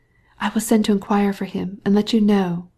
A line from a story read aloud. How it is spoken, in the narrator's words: whispered Betsy